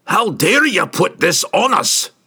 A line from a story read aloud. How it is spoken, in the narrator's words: he roared at Regis